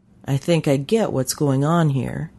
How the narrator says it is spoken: said

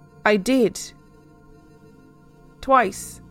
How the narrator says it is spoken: replied back in a really shaky voice

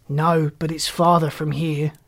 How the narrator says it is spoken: he said, shaking his head at her sadly

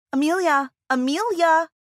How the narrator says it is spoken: Karen's annoying and deafening shouting

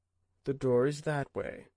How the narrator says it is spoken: Kendall said calmly

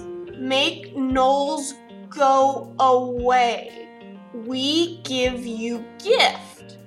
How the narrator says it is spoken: uncertainly perplexed, and he enunciates each word as he slowly replies

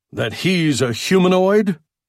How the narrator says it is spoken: Marston spat out the word as if it were a lump of vileness in his throat

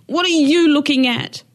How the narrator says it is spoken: she screamed

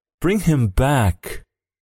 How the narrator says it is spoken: cried the old woman

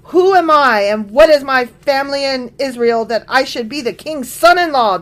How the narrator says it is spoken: David exclaimed

